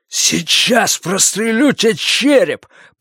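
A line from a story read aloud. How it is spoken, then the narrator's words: Hissing threat. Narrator (Russian): прошипел он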